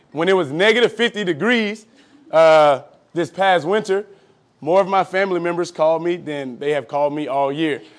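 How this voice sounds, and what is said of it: Southern US accent. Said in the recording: “I am not from Minnesota, if you can't tell by my southern accent.”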